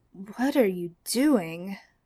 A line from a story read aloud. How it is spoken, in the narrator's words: Sam practically purred